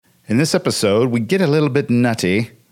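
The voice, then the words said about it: Austin Powers character impersonation. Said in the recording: “my Austin Powers impersonation”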